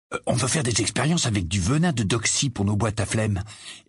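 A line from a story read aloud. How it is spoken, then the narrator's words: Low explaining voice. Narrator (French): expliqua George à voix basse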